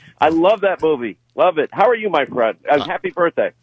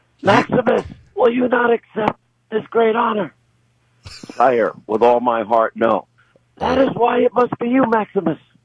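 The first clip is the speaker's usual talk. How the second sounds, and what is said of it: Imitates movie characters' voices. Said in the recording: “That's my best imitation.”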